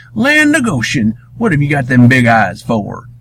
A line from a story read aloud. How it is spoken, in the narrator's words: he snapped, thinking the kids were trying to scare him with some crazy mask